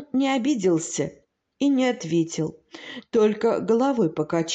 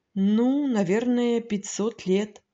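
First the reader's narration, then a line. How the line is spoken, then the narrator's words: Quiet hesitant sighing reply. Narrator (Russian): вздохнул и, как бы делая трудный шаг, тихо ответил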